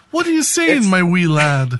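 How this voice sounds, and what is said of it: Bad put-on Irish accent. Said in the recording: “The worst Irish accent.”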